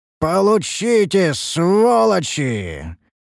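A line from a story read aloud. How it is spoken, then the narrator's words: Roared. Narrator (Russian): Взревел я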